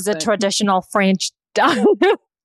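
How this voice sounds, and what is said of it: Put-on mixed French-Southern accent. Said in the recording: “Sorry, I got a little bit. Southern ... that sounded like Gru from Despicable Me.”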